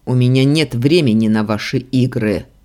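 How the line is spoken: Growl, inner struggle. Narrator (Russian): рыкнул я, борясь с самим собой

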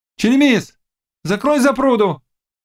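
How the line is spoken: Young woman shouting. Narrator (Russian): крикнула девка

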